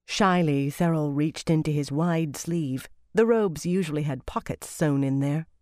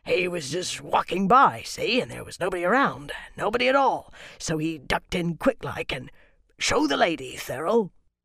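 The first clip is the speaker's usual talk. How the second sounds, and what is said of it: Coarse rustic accent, woodcutter character. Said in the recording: “A woodcutter, he spoke with a coarse accent that made him barely intelligible.”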